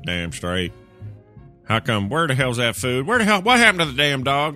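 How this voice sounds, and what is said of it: Put-on Southern American accent. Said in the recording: “Is it okay if we do a Southern accent?”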